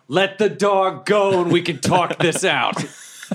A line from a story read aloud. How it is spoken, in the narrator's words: I just yell